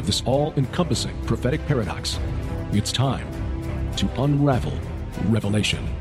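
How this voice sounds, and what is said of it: Big dramatic radio announcer voice. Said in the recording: “They got the dramatic music. They got that big radio voice.”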